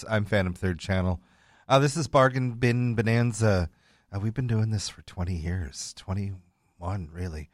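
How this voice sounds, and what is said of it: Late-night radio DJ voice. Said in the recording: “my late night radio DJ voice. This is my actual late night DJ radio voice.”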